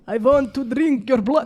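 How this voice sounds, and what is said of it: Dracula-style vampire voice. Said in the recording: “imagine Dracula... That's what he sounds like. Like that.”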